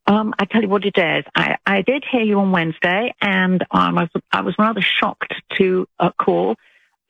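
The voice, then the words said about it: British English accent. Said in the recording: “you don't sound like you're from Alabama... I'm British... I love her accent... I love a English accent”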